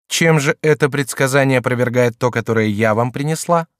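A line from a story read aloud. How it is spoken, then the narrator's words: Plain. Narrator (Russian): сказала Екатерина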